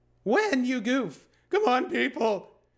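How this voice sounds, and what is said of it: Seinfeld impression. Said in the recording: “my Seinfeld impression”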